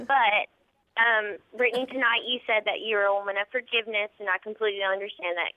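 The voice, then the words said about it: Noticeable regional accent. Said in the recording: “You have an accent.”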